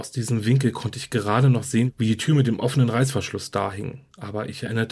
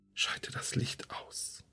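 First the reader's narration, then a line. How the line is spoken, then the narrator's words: Whispering again. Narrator (German): flüsterte wieder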